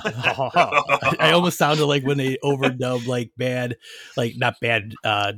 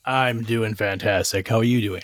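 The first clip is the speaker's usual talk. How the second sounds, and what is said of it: Deep announcer voice. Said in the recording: “my announcer voice there. I went deep all of a sudden.”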